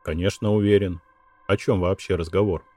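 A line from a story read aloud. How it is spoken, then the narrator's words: Plain. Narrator (Russian): сказал я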